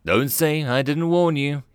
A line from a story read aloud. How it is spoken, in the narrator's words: sighed